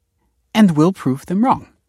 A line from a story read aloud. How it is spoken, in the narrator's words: said the lawyer brightly